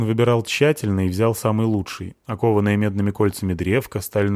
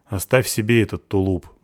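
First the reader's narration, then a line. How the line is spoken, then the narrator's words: Gruff mutter. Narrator (Russian): буркнул я Олегу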